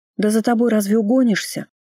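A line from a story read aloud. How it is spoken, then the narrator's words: Snapping back. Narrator (Russian): огрызнулась была я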